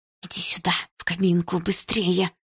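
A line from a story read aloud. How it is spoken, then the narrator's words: Whispered. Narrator (Russian): прошептала она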